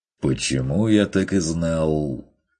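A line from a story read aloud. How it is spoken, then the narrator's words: Wry snort. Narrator (Russian): хмыкнул Ван Ален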